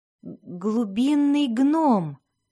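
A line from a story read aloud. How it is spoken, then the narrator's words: Stammering, forced out. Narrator (Russian): заикаясь, выдавил Дзирт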